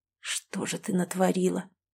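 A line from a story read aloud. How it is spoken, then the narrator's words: Whispered. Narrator (Russian): прошептал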